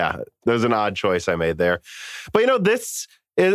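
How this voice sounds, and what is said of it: Usual voice. Nothing is said of it.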